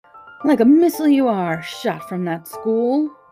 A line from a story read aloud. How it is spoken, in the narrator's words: screamed the cook